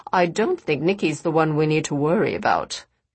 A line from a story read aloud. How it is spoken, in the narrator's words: Cassandra said dryly